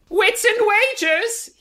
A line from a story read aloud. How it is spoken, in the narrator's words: he yells, apropos of nothing